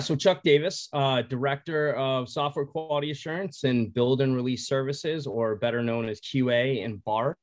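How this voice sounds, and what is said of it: Boston accent. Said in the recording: “kind of an accent... Boston... the accent comes out”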